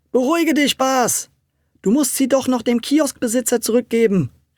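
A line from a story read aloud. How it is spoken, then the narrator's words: Called out. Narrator (German): rief Tommy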